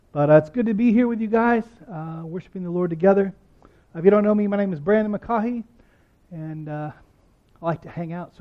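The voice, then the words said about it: Raspy voice, low energy. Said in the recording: “I've been out the last couple of weeks with bronchitis ... forgive my raspy voice and a little less pep in my step”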